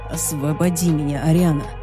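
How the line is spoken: Hoarse rasp, hunched. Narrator (Russian): прохрипел Люциан, скорчившийся

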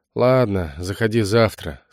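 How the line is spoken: Said wearily. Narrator (Russian): сказал стоматолог устало

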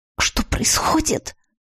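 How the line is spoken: Hoarse, anxious question. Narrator (Russian): Охрипшим от волнения голосом спросила я

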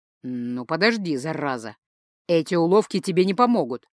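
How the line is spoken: Silent inner growl. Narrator (Russian): мысленно прорычал Ингвар

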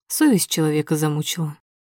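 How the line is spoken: Cold tut. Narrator (Russian): цыкает Матвей холодно

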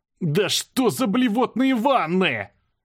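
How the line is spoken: Frantic yell. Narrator (Russian): заорал я, судорожно

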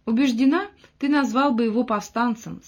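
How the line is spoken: Laughing reply. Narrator (Russian): смеясь ответила Мот

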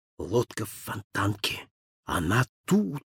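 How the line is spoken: Urgent whisper. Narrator (Russian): шептал Холмс

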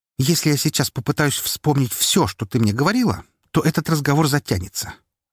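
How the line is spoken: Snapping retort. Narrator (Russian): огрызнулась дочь

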